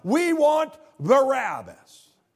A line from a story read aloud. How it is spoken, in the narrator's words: they shout